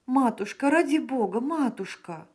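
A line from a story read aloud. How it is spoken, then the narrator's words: Exclaiming in Italian. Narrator (Russian): воскликнула Джемма по-итальянски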